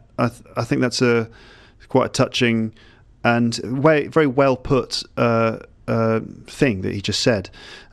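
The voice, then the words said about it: British English accent. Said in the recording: “my kind of British English accent”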